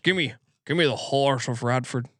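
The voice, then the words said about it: Imitates another person's voice, poorly. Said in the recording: “I'm going back to Sean Connery talks like this... terrible impersonation”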